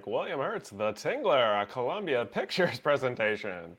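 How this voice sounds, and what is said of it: Old-timey radio announcer voice. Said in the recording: “I put an old-timey radio voice.”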